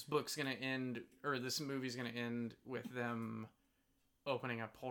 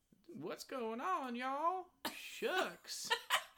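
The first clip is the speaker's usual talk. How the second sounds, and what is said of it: Southern belle character accent. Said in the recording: “Is that your Louisiana accent? ... Yeah, that's my Rogue accent. She's not like Louisiana. She's just like Southern Belle.”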